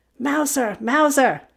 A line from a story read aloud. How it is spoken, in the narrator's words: she cried